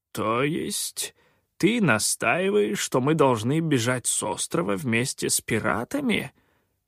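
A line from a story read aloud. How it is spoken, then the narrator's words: Quavering mutter. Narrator (Russian): дребезжащим голосом пробормотал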